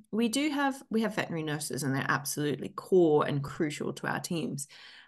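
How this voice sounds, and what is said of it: Australian accent. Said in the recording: “I'm from Australia, as you can probably tell before my accent”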